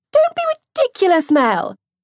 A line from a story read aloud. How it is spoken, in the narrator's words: Sophie piped up eagerly